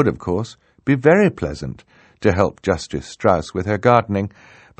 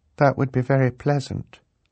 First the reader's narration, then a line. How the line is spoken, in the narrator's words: Violet said, very sadly